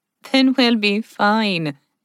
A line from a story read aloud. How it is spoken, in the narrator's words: Jen laughed